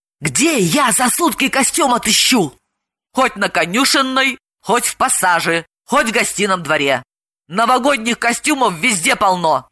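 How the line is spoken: Hissing into her ear. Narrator (Russian): Далила зашипела ей в ухо

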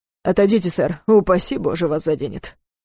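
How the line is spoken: Grumbling mutter. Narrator (Russian): буркнула Ривер

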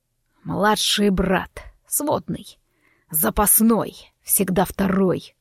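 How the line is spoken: Growl. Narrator (Russian): прорычал он

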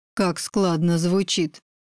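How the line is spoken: Through gritted teeth. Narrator (Russian): цедит сквозь зубы Игорь

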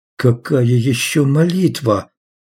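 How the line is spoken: Moaning. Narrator (Russian): Том просто стонал

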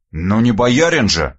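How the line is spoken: Scoffing snort. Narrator (Russian): хмыкнул я

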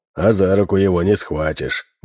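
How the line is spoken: Sigh. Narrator (Russian): вздохнул профессор Минц

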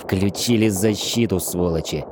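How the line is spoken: Through gritted teeth. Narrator (Russian): процедил Шрайвер

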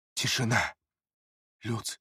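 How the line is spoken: Shocked whisper. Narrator (Russian): в шоке шепнул Эриас

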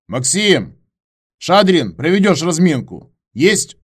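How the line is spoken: Shouted from the ranks. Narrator (Russian): Выкрикнул кто-то из строя

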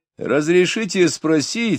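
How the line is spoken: Laughing. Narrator (Russian): сказал смеясь Дориан

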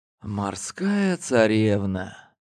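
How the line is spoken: Smiling whisper. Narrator (Russian): Я улыбнулся и прошептал

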